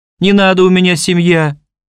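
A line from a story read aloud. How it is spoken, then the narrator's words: Trembling falsetto pleading. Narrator (Russian): дрожащий фальцет взмолился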